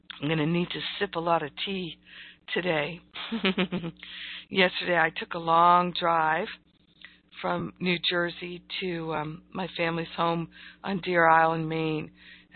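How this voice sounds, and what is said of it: Strained, fading voice. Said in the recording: “You can hear my voice is going”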